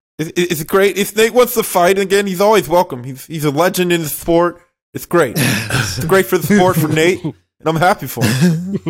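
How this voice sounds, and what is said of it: Imitates another person's voice. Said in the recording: “You got the cadence down for sure. ... That was Dana White, bro. He's got it. ... We gonna have to work on your Dana White, bro. ... shitty impressions”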